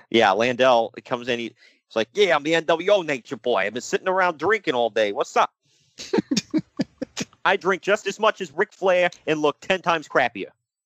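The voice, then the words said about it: Put-on New York accent. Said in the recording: “He's not from New York. I don't know why I'm doing that accent”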